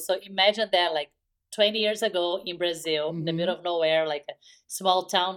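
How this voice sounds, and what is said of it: Brazilian accent. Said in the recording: “I'm from Brazil... I don't know if you can tell by the accent”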